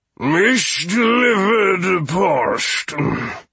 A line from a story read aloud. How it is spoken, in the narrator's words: the drunken king was saying, his speech already slurred